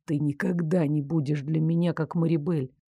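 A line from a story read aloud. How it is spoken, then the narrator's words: Whispered. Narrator (Russian): наконец прошептал Дарек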